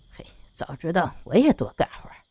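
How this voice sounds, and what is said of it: Quiet muttering. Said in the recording (Chinese): “小声的嘀咕着”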